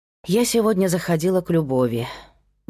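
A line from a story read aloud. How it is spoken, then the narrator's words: Sighing. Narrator (Russian): вздохнула Кира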